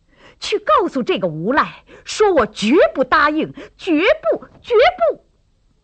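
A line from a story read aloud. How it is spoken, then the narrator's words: Angry yelling. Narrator (Chinese): 杨芷秋气得直嚷嚷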